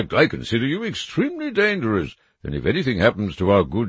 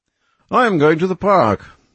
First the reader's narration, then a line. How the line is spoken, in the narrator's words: he cried